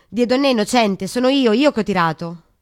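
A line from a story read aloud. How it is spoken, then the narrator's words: Flushed violent shout. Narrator (Italian): Raymond si alzò cremisi e gridò con violenza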